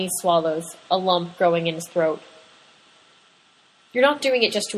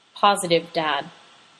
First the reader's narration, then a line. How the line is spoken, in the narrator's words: Patrick says and sighs